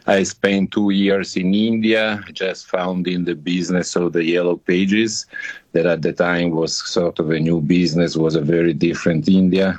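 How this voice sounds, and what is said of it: Italian accent. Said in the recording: “as you can guess from my name and my accent, I was born in Italy”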